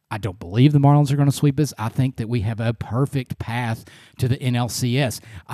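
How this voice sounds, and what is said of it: Excited, energetic voice. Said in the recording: “I'm just so excited. I know you can hear that in my voice, and I'm so excited.”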